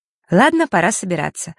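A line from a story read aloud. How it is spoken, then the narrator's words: Plain. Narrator (Russian): сказала Диана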